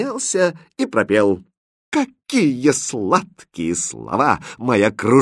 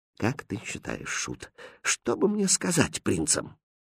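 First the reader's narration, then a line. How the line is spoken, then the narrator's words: Quiet question. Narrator (Russian): Король тихо спросил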